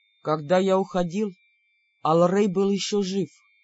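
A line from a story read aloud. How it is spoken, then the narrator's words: Very quiet shadow voice. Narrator (Russian): очень тихо сказала тень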